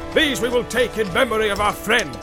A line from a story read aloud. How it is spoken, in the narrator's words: he cried